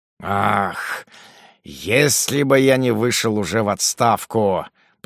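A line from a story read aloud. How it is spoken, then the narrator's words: Muttering through teeth. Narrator (Russian): пробормотал Ругон сквозь зубы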